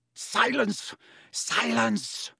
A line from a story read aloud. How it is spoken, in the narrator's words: Snape roared